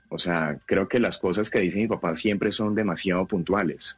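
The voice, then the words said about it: Colombian Cali (caleño) Spanish accent. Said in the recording (Spanish): “Ahí sentimos su acento caleño, el bojavés”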